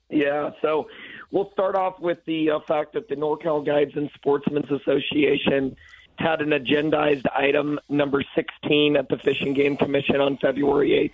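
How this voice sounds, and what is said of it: Scratchy, hoarse voice. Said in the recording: “My voice is scratchy because my phone has not stopped all week, and I'm losing my voice”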